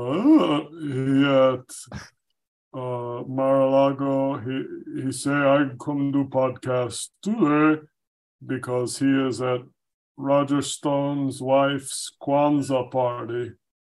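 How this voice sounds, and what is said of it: Very deep voice, imitates another person. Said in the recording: “Your voice has become very, very deep.”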